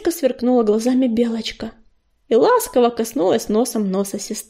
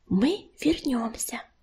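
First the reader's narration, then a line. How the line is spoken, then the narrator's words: Whispered. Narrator (Russian): прошептала она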